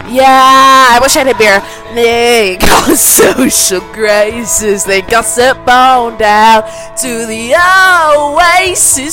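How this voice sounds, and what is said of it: Strained, worn-out singing voice. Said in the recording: “My voice is so fucked”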